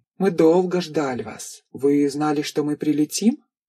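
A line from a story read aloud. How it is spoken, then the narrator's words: Carefully even, emotionless voice. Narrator (Russian): Станислав постарался говорить ровным голосом, не выдавая эмоций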